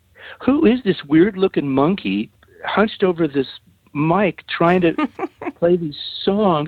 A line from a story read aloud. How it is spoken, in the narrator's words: they're kind of … laughing